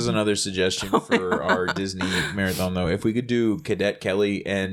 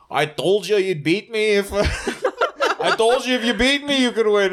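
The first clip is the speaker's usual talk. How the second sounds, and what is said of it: Put-on Irish accent. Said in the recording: “For some reason that's my Irish accent”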